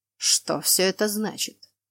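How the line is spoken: Hissed with pauses, up close. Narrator (Russian): Делая паузы между словами, прошипел мужчина мне в лицо

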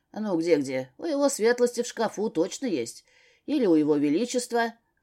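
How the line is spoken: Joking snort. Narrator (Russian): хмыкнул Рыжик, видимо, решив пошутить

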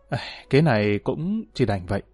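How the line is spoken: Sighing. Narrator (Vietnamese): Dương Ninh Hòa thở dài nói

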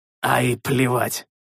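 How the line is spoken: Snorting. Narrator (Russian): фыркнул я

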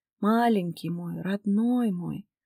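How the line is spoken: Weak whisper, dry lips. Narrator (Russian): шептала я онемевшими сухими губами, придя в себя после родов

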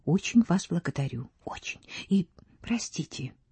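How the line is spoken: Fervent whisper. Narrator (Russian): горячо шепнула

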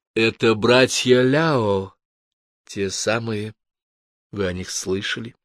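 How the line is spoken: Soft. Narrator (Russian): Миванча лишь мягко заметила

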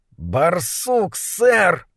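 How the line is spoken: Hissing. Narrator (Russian): прошипел сержант Доппельпункт

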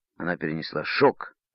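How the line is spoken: Angry. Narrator (Russian): сердито сказал Тим капитану

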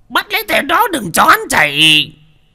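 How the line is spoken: Surprised old man shouting. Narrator (Vietnamese): Đô Lương cũng bất ngờ, lão thầy ba hét to

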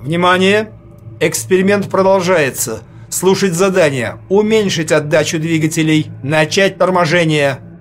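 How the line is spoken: Loud commanding voice. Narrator (Russian): громко командным голосом сказал

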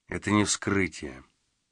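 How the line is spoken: Quiet male voice. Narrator (Russian): тихо проговорил он

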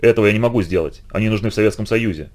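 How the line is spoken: Plain. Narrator (Russian): сказал Горностаев

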